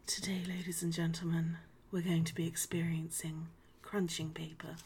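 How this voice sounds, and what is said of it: Soft whispery ASMR-style voice. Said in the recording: “weird ASMR voice”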